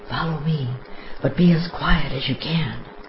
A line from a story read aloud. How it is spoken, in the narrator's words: says in a whisper